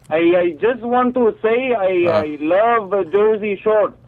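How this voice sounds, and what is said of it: Caller with fake accent. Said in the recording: “random caller with the fake accent”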